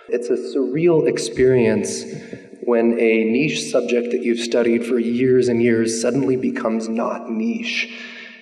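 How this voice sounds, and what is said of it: Rough, unwell-sounding voice. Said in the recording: “apologize for my voice. I'm getting over a long sickness.”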